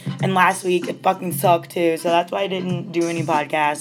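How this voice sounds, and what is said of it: Unwell, strained voice. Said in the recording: “As you can tell, my voice isn't that great.”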